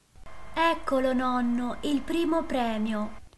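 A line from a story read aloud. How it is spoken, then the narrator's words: Exclaiming. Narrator (Italian): esclamò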